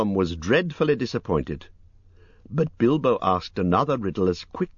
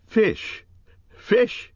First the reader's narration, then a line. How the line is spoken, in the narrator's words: he cried